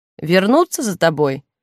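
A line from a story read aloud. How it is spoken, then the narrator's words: Plain question. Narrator (Russian): спросил Ролан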